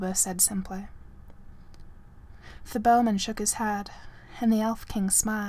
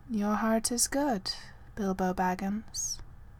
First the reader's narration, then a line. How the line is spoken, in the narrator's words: he said